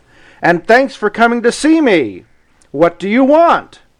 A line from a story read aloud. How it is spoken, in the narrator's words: answered the North Wind, for his voice was loud and gruff